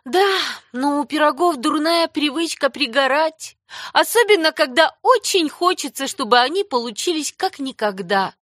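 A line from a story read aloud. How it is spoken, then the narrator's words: Sighing. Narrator (Russian): вздохнула Энни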